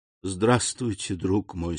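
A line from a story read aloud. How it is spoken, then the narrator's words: Smiling through tears. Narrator (Russian): сказал хозяин, невольно улыбнувшись сквозь слезы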